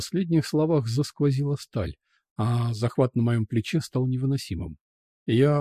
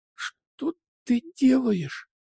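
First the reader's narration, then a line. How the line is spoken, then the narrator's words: Gasped in fear. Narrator (Russian): судорожно выдохнула, со страхом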